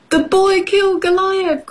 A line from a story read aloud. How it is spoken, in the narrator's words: cried Goliath's men